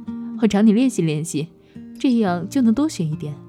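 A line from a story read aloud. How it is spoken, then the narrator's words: Laughing. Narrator (Chinese): 他笑着说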